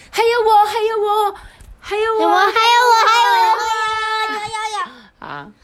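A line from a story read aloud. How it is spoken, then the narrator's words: Many little rabbits shouting. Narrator (Chinese): 他家所有的小兔子们都一起大喊说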